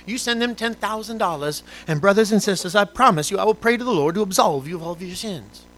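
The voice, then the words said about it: Southern televangelist preacher accent. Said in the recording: “why do they always have a Southern accent?”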